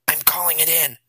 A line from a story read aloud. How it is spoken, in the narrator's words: Ed replied, also in a whisper